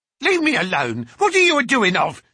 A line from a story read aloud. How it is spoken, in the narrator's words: she screeched